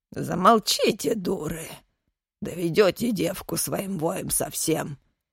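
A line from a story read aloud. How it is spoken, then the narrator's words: Old man growling. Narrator (Russian): зарычал на них дед Илья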